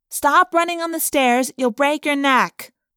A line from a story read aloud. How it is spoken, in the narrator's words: I heard Jordan yell